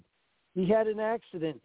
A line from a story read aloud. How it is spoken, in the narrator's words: Puppy said